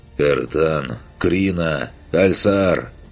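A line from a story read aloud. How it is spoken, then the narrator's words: Hoarse voice. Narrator (Russian): хриплым голосом произнес он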